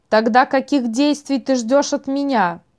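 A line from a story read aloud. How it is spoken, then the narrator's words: Plain question. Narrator (Russian): спросила Шантурус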